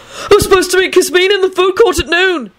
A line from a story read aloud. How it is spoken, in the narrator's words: he yelled desperately